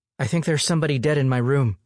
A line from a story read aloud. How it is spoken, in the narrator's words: she blurted out